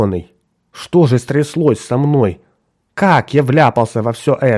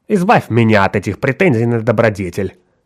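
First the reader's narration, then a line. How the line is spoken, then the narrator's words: Sharp tone. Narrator (Russian): резким тоном проговорила Франческа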